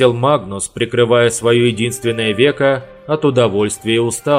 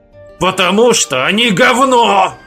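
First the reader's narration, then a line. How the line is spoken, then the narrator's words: Growling. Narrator (Russian): прорычал Николя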